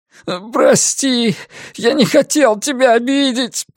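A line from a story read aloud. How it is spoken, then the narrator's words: Moan. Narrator (Russian): простонал Ник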